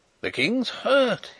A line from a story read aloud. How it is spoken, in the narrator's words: he cried